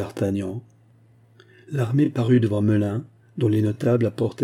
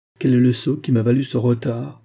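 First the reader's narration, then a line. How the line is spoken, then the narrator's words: Muttering through teeth. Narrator (French): grommela-t-il entre ses dents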